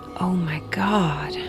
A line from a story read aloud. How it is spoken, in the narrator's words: again in a whisper